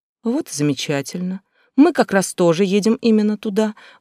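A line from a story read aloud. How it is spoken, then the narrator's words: Gentle, anxious coaxing. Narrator (Russian): ласково приговаривала я, опасаясь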